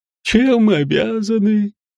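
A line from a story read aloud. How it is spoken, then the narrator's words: Lazy drawl. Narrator (Russian): Лениво протянул Гринривер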